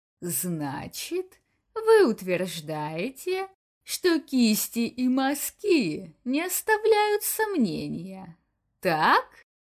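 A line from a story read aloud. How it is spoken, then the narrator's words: Insinuating, poised to pounce. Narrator (Russian): начал он вкрадчиво, словно готовясь к прыжку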